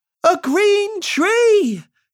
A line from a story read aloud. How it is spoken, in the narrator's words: shouted the crowd